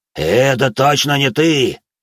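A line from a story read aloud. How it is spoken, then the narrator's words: Growled with a smile. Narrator (Russian): прорычал он с улыбкой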